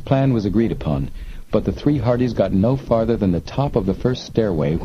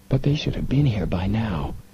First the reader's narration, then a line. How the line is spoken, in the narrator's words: Joe whispered